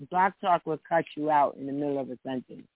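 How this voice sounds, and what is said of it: Talking very fast. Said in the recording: “I'm talking real fast. ... you're very speedy.”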